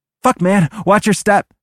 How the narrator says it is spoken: Noah shouts

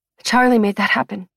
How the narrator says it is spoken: she says

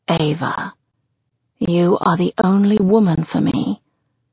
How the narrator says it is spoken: he says softly in my ear

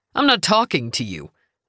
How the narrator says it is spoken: Denver snapped

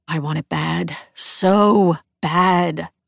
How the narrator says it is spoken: moan

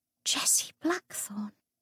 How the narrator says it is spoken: Lucy whispered, as the world swam away and the dim light faded

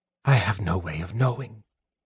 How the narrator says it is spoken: the mage whispered

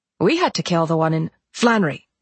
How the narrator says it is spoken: Nolan snapped

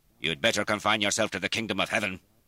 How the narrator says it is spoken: Sir George said sharply

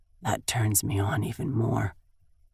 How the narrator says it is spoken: he mumbles

